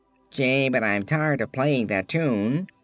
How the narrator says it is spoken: called the phonograph, speaking through its horn in a brazen, scratchy voice

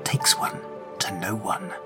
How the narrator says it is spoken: An even more distant part, an echo of the innocent child Cadilius once was, whispers

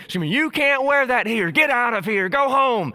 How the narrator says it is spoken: a raging Tech fan with her eyes about to pop out of her head, screaming

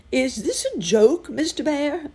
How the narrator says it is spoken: Uncle Wiggily called out

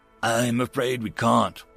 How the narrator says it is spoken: First Hittick said sadly

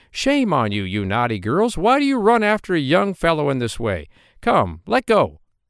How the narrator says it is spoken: the parson called out

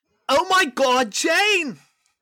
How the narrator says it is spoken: Claire screamed

